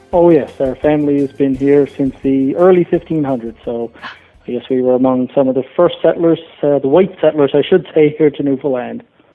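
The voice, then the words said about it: Newfoundland English accent. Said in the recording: “I love your accent, and I know it's very much a Newfoundland English accent.”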